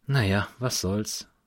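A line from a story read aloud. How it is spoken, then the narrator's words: Sighing. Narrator (German): seufzte sie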